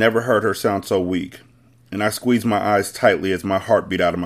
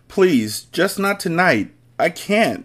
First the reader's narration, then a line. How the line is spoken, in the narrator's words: she cried